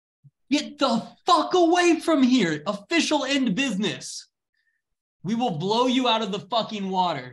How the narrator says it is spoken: You hear a man from the back of that ship yell

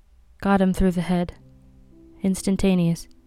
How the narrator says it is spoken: The doctor said, still in the same lifeless voice

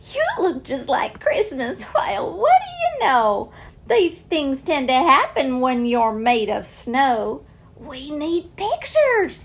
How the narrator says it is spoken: burst into laughter and blurt out with glee

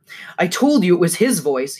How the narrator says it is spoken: shouts

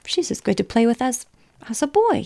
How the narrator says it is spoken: he finished triumphantly

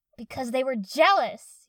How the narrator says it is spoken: Yakumo shouted

